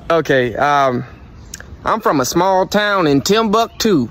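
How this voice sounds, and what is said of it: Put-on accent, Texas-like, not very good. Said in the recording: “give us an accent ... That wasn't that good. Nah. ... reminds ... Me of Texas.”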